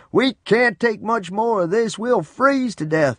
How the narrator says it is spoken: Papa shouted over the roar of the wind

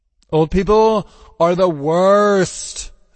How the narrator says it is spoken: Zero moaned

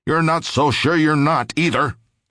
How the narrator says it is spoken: snapped the doctor

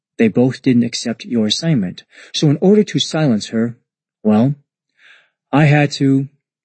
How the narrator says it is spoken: Sakamochi said calmly

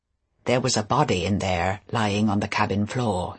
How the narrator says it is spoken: he said quietly

